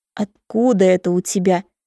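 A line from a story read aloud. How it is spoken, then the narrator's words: Growled. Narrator (Russian): зарычал он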